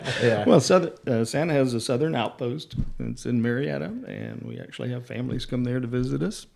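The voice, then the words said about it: Slight Southern US accent. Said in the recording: “you got a little bit of a southern accent”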